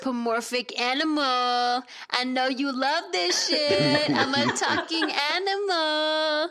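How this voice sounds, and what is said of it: Cartoon talking-animal voice. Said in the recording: “I just gave in to my cartoon voice”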